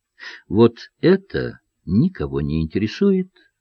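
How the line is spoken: Gentle explanation. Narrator (Russian): ласково разъяснил чиновничек

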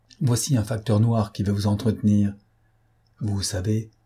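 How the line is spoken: Low voice, close to ear. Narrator (French): ajouta-t-il à voix basse, et en se penchant à l'oreille

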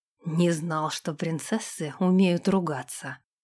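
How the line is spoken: Amused snort. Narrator (Russian): хмыкнул Сэм

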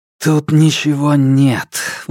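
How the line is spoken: Breathy exhale. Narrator (Russian): выдохнул Александр

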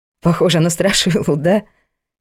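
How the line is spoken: Laughing. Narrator (Russian): хохотнула она

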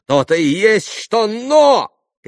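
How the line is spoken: Shouting. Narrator (Russian): кричал Иван

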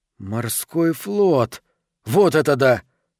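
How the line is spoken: Exclaiming. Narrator (Russian): воскликнул он

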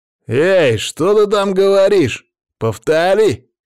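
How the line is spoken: Shouted. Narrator (Russian): крикнул ей некромант

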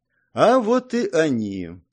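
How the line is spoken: Calm. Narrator (Russian): спокойно произнес

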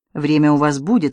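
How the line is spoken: Calm. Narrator (Russian): спокойно сказал Видок

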